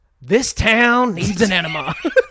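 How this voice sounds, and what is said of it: Jack's Joker impression. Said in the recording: “I'll do Jack if you want ... the fucking Joker”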